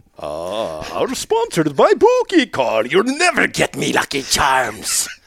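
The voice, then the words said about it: Pirate-like leprechaun accent. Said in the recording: “accent's going in now. You know I'm two seconds from a pirate. ... Every accent you do, you turn into a pirate. ... a pirate leprechaun. ... Very small, angry.”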